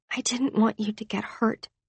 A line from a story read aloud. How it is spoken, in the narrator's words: she whispered